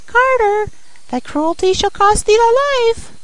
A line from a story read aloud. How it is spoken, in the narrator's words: the sparrow cried